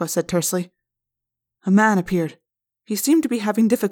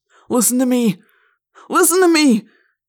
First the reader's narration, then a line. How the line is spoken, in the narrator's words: cried, looking around wildly